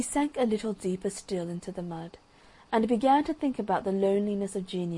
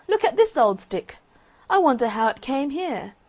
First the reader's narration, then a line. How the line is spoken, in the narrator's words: cried one of the boys